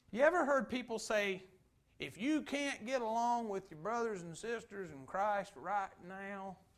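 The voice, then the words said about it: Mocking put-on Kentucky accent. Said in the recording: “I'm a Kentuckian preacher that says that ... When you mock somebody, you add an accent.”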